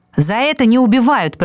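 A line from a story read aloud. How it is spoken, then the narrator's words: Shouting in face. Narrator (Russian): прокричал сфинкс в лицо шакалу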